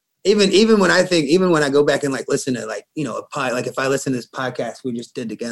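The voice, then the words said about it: Southern American accent. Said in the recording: “you're fucking redneck... I don't feel like I have that bad of a Southern accent at all... You sound uneducated as fuck... Where's your accent coming from, bro?”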